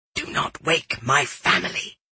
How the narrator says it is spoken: he whispered

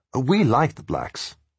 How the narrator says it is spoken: said Tom

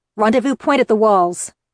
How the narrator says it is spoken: I snapped at the Royal Guard members

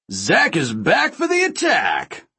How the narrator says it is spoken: Ray bellowed

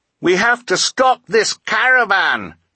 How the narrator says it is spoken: Klaus screamed

